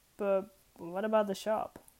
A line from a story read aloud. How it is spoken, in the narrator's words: Aziraphale chuckled